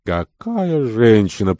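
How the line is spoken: Muttered. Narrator (Russian): пробормотал Ван Митен

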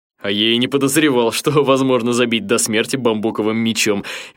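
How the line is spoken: Merry laughter. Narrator (Russian): весело рассмеялся Адама

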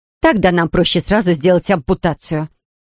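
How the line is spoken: Snapping retort. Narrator (Russian): огрызнулась Рэйчел

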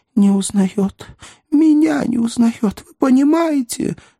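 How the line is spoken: Sobbing outburst. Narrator (Russian): взрыдала секретарь

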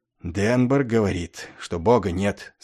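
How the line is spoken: Plain. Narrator (Russian): сказал он

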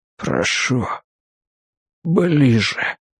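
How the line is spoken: Breathless exhale. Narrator (Russian): выдохнул он

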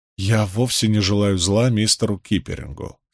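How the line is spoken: Calm reply. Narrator (Russian): спокойно отвечал Мэтью

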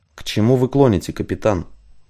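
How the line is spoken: Quiet question. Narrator (Russian): тихо спросил Дикой

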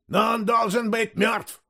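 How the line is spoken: Shout. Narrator (Russian): закричал Септентрион

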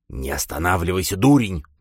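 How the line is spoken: Hissed into ear. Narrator (Russian): прошипел Шут ему в ухо

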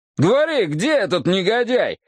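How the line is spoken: Shouting. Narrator (Russian): выкрикнул Пол Каунти

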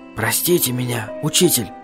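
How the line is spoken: Whispering. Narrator (Russian): зашептал я

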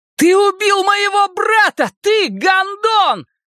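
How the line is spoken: Shouted. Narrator (Russian): прокричал Билл Денбро

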